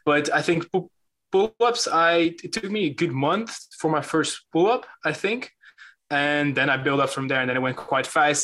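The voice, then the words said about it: Dutch accent. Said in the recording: “I always say pronounce stuff weird ... I'm from the Netherlands. And sometimes I have this weird accent going on”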